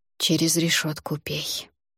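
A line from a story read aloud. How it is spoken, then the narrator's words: Still quiet. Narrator (Russian): все так же тихо сказала Добронега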